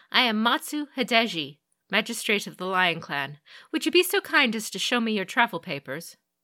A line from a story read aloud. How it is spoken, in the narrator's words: She said curtly